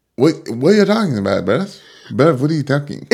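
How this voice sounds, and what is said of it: Poor put-on British/Irish accent. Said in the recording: “your accent is still so shit ... It gets worse every time you do it ... Irish accent? A great British accent?”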